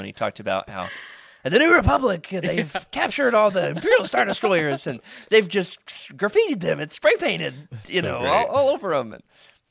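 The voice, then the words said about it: Imitates another person's voice. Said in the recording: “How's my impression? ... That was good, man. ... If you did that, and I didn't know if it was Patton Oswalt, you know, I probably would not have guessed”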